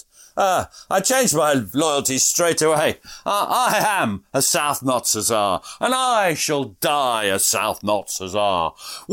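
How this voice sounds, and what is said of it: Slightly silly voice. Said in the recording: “I'm going to have to use a slightly silly voice for this.”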